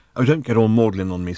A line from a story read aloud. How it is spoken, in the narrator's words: snapped Ford